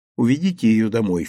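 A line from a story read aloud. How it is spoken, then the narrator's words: Low-voiced command. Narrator (Russian): вполголоса приказал Гирин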